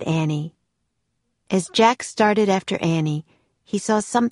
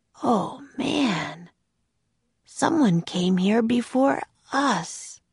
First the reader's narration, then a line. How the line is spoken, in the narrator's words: Jack said softly